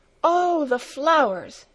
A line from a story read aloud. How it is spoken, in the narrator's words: exclaimed Clara